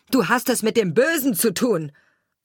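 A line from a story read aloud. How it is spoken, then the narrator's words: Bird-catcher screaming. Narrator (German): schrie der Vogelsteller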